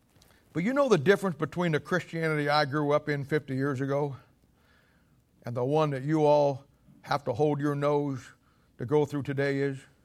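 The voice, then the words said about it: Loud, raised preaching voice. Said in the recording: “I'm preaching up here and raising my voice”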